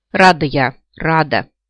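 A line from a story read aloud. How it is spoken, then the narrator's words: Grumbled. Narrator (Russian): проворчала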